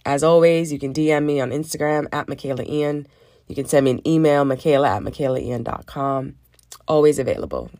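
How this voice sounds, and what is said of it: Worn-out, hoarse voice. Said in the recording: “My voice is shot”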